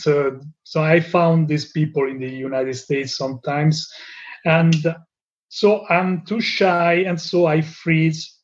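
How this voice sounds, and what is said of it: Non-native accent in English. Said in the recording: “they make fun of me, of my mistakes, of my accent”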